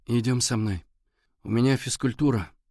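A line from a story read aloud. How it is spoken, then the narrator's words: Glum objection. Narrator (Russian): уныло возразил Валя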